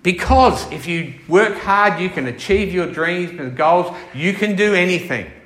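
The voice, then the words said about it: Sarcastic delivery. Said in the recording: “I'm being sarcastic here.”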